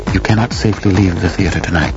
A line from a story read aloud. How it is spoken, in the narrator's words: he whispered to me